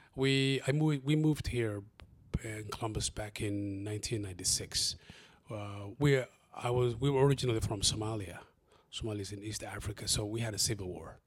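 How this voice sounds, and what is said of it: Non-native English accent. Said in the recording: “with my amazing accent, you can see my background is not, my English is not my first language”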